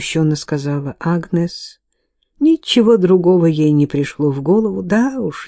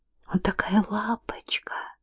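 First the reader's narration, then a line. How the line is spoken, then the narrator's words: Whisper. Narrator (Russian): прошептала Кейт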